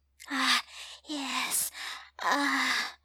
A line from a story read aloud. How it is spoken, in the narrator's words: the woman moans